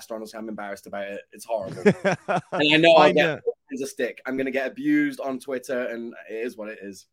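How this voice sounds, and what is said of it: Mixed American, Yorkshire and Midlands accent. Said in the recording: “It sounds awful. It's gone completely Yank, kind of Yorkshire, kind of Midlands”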